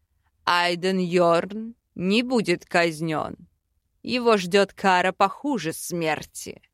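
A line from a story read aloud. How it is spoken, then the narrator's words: Convinced growl. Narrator (Russian): Убежденно прорычал Аринель справедливый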